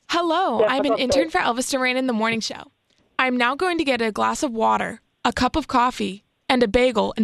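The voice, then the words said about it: Wisconsin accent. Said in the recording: “She's from Wisconsin.”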